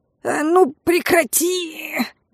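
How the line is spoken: Muffled howl. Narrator (Russian): Приглушенно взвыл Лин

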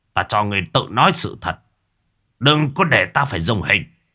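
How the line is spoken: Shout. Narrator (Vietnamese): quát

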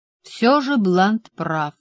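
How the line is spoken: Plain. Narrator (Russian): сказал я

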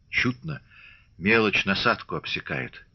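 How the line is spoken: Sighing. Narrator (Russian): вздохнул Григорий

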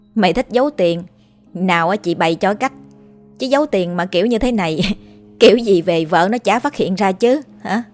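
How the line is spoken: Laughing. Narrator (Vietnamese): tôi bật cười

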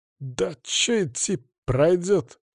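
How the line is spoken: Unsure mumble. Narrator (Russian): как-то неуверенно буркнул он

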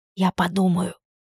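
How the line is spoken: Intimate whisper. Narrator (Russian): шепнула она ему в губы

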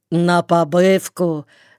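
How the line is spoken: Rough voice. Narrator (Russian): спросил он себя грубым голосом

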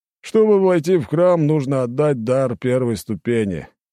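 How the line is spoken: Lazy explanation. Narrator (Russian): лениво пояснил он

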